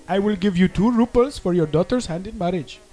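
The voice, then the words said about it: Poor put-on Indian accent. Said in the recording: “bad impression ... my Indian accent ... the accent isn't very good at all”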